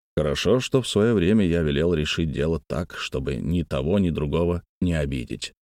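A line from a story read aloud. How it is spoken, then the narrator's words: Plain. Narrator (Russian): сказал император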